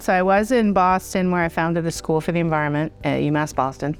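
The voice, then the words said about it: Boston accent. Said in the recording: “I am a Boston girl. So I put on my accent for you.”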